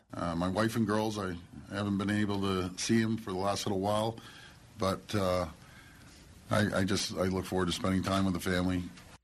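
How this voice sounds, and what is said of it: Tired-sounding voice. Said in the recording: “he's already tired and you can tell that from his voice.”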